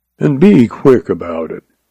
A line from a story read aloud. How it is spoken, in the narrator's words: added huskily